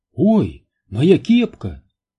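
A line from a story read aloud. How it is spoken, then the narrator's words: Exclaimed. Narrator (Russian): воскликнула Нелл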